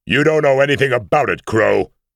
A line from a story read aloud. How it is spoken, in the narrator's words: he roared